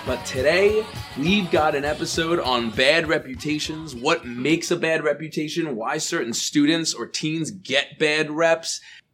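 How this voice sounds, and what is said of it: Raspy voice. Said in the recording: “apologize for my voice sounding a little bit raspy ... I have been battling a cold”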